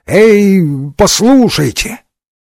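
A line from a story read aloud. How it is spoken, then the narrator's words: Weak, unconvincing exclamation. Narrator (Russian): сумел только неубедительно воскликнуть не слишком внушительным голосом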